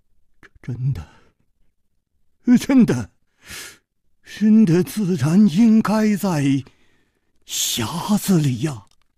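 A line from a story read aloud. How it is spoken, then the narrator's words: Trembling voice. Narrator (Chinese): 公子金半花的面色 又变了，他颤声说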